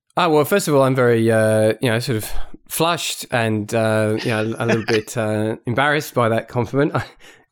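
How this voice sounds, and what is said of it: Distinctive accent. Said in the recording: “maybe the coolest accent”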